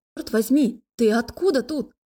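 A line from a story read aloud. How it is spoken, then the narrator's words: Yelling. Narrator (Russian): заорала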